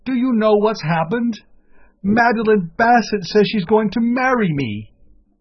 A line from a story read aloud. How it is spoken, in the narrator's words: I cried